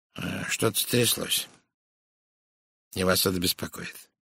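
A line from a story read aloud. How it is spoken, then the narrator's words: Soft. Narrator (Russian): мягко сказал он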